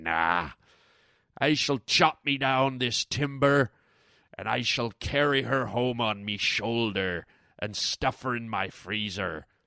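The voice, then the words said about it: Put-on pirate voice. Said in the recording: “talking like a pirate”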